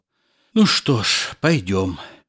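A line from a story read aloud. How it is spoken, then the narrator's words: Shy, hesitant sigh. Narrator (Russian): Молодой человек зарумянился, неизвестно почему помялся, оглядел свои руки, вздохнул и сказал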